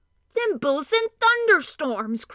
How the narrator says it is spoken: cried in a rage

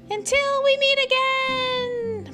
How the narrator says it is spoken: yell

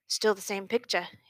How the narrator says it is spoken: he said

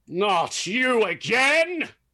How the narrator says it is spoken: he shouts with a groan

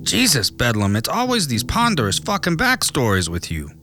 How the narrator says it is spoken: his partner said angrily

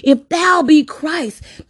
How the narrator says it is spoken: That thief on the left yelled harshly at Jesus

